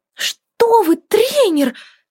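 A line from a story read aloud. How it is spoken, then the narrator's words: Ardent enthusiastic exclamation. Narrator (Russian): С жаром воскликнула восторженная Милли Троут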